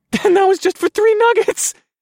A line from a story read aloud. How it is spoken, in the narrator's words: I laughed maniacally